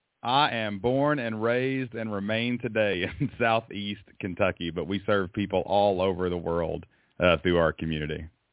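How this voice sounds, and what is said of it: Southern American accent. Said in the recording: “I love the Southern accent”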